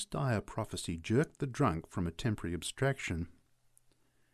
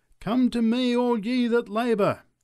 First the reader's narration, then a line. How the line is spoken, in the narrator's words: cried the preacher